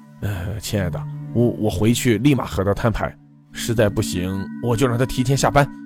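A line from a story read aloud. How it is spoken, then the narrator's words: Soft, tender. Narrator (Chinese): 他轻声道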